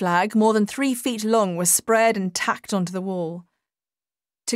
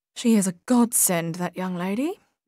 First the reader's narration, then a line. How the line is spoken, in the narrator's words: murmured Edna